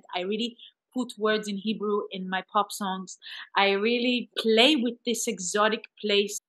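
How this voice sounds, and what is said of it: Israeli-accented English. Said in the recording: “I come from an Israeli place as an artist. I'm not ashamed of my accent.”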